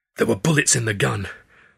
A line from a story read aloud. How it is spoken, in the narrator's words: snarled, still not quite believing it